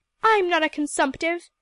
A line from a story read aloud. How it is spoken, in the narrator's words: cried Emily rebelliously